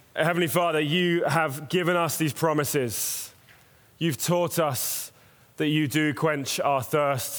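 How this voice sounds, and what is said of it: British accent. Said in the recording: “I'm British. ... you'll get used to the accent.”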